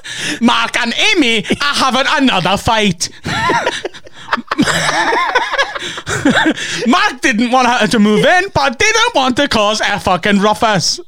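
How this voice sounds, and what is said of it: Imitates another person's voice. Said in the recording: “Accent go dodgy. ... When we're doing an Ian Stern impression”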